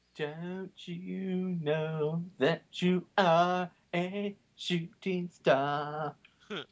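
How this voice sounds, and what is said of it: Imitates a singer's voice. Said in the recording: “good impersonation”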